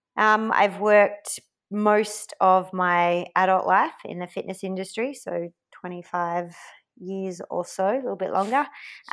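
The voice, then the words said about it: Australian accent. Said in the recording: “Australian born, obviously, by the accent”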